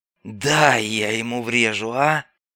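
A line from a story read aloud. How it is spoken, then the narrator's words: Hoarse rasp. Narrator (Russian): прохрипел скаут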